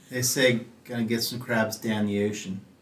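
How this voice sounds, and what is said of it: Put-on Maryland Baltimore accent. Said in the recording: “the speech pattern of Maryland people ... your best impression”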